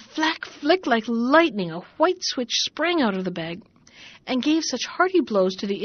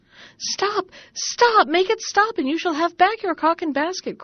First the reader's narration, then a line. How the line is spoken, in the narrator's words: cried the man and his wife